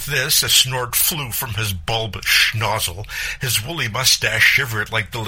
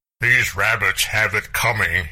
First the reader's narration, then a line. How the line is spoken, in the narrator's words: boomed